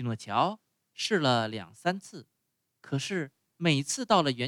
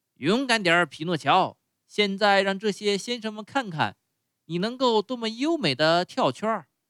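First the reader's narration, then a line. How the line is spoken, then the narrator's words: Ringmaster shouting. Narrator (Chinese): 班主 叫道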